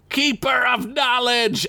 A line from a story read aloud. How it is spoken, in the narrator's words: Axwoon bellowed